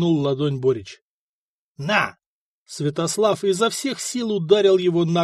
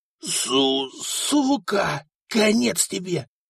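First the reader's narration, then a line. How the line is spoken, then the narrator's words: Groan. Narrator (Russian): простонал он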